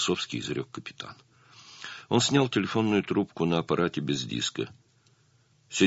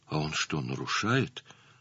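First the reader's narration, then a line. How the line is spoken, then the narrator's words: Timid question. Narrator (Russian): робко спросила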